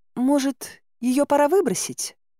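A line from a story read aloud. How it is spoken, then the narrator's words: Innocent voice. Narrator (Russian): Невинным голосом предложила Мара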